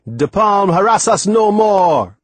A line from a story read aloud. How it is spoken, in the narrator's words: Timothy yelling